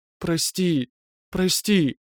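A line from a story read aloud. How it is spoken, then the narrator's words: Moaning, plaintive whimpering. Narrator (Russian): Стонущий зов перебивали жалобные, поскуливающие нотки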